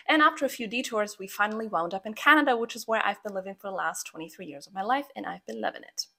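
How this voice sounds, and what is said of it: Slight Croatian accent. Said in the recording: “I have a bit of an accent ... I'm actually from Croatia”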